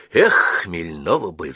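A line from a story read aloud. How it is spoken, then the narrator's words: Sigh. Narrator (Russian): вздохнул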